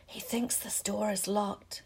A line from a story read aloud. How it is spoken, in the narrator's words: Harry whispered